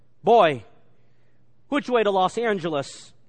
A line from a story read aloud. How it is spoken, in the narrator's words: he said gruffly